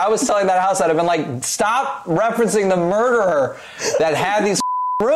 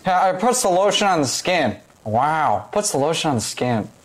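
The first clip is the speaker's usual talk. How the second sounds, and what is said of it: Imitates another person's voice. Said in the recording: “my impression of Owen Wilson in Silence of the Lambs ... is it Doug Funnie mixed with someone else?”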